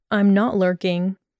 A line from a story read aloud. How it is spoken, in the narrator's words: Draco calmly argued